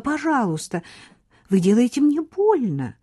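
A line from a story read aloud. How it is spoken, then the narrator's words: Pleading. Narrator (Russian): взмолилась Хлоя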